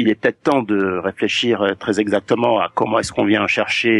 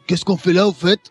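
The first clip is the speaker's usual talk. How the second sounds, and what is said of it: Character voice. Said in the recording (French): “Est-ce que tu peux le faire avec ta voix ... fais-le avec ta voix, tiens, de personnage”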